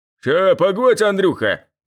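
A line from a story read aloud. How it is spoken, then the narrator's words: Deep bass voice. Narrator (Russian): пробасил он из окна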